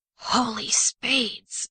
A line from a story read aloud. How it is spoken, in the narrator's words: he muttered, already breathless